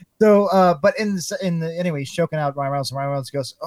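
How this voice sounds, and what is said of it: Usual voice. Nothing is said of it.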